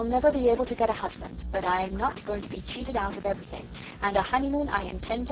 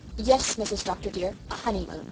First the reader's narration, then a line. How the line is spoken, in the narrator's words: repeated Susan firmly